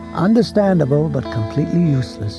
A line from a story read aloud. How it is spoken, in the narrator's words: Weiser said cheerfully